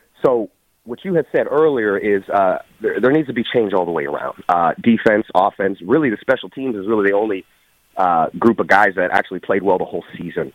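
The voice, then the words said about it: Sick, under-the-weather voice. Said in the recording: “forgive my voice, I'm a little under the weather.”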